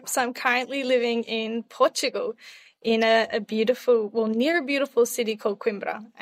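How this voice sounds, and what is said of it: Australian accent. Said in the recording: “you can hear from ... voice and her accent. She's very much Australian”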